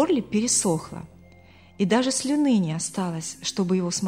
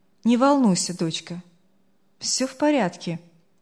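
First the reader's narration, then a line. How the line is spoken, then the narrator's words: Older voice, almost calm. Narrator (Russian): голос постарше почти спокойно ответил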